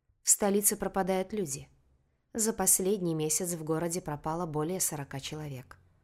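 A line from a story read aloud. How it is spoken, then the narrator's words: Calm explanation. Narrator (Russian): спокойно пояснил Леннер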